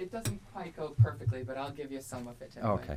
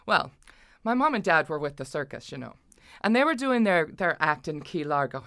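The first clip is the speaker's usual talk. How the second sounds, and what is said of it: Slight put-on Irish accent. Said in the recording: “the Reverend Mother has a little bit of an Irish accent”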